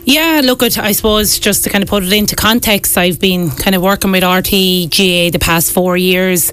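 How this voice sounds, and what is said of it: Wexford Irish accent. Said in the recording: “your Wexford accent”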